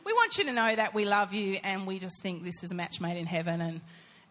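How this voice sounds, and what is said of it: Emotional, choked-up voice. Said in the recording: “now I'm getting emotional”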